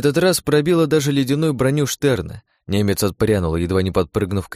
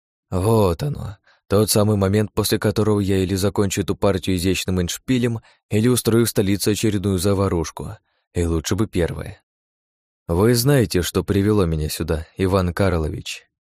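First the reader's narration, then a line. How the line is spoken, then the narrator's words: Quiet whisper. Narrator (Russian): Я тихо прошептала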